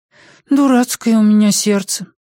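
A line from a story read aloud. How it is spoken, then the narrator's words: Sighing. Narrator (Russian): вздохнула Пеллерина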